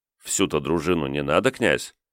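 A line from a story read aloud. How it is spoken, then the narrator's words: Quiet, soft-spoken. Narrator (Russian): тихонько промолвил полковник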